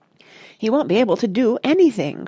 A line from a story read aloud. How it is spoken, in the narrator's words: cried Mrs